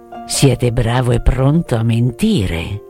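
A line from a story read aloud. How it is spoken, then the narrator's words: Murmur. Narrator (Italian): L'uomo verde aveva mormorato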